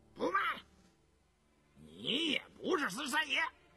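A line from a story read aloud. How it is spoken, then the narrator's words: Loud. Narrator (Chinese): 那胡世祥却不知其道，大声说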